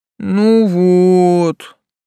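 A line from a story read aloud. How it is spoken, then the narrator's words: Vexed rumble. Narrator (Russian): с досады прогудел Тесл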